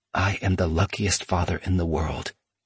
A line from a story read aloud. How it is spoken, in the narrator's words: he said in a whisper